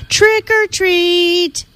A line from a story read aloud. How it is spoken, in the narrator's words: a chorus of young voices shouting